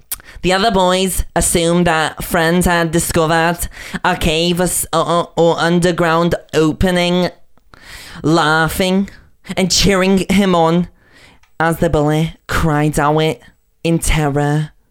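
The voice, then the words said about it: Put-on Blackpool accent. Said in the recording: “the rest of this is going to be in a Blackpool accent ... Dude, your cadence.”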